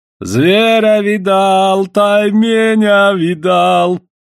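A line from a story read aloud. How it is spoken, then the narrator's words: Singsong. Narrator (Russian): нараспев говорит Савоська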